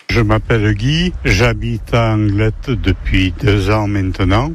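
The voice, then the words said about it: Sing-song regional accent. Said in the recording (French): “Un gars à l'accent chantant”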